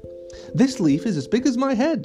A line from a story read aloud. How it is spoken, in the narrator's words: Haley laughed